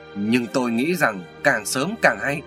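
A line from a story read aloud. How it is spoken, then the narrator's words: Stern, emphatic. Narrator (Vietnamese): Quách Tung Dương gằn giọng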